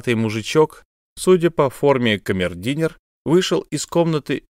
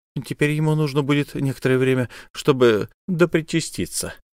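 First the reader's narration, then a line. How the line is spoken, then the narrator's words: Quiet, finishing a remark. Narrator (Russian): договорил он, негромко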